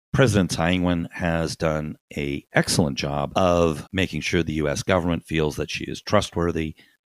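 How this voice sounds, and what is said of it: Hoarse voice. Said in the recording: “my voice has been a bit hoarse”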